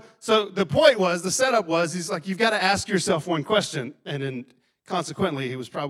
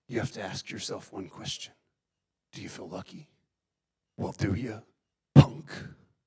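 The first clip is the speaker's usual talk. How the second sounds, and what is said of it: Clint Eastwood impression. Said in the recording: “Clint Eastwood ... Dirty Harry ... Was the impersonation okay? It's decent. I've been practicing”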